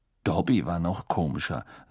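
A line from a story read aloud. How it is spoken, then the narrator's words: Dry. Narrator (German): sagte Harry trocken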